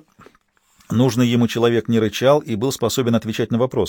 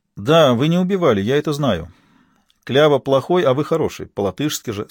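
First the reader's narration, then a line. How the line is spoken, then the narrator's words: Plain. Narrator (Russian): сказал он безумцу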